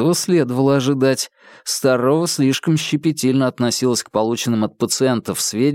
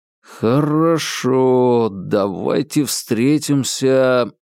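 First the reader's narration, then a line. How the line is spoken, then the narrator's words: Drawled. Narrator (Russian): протянул Вербин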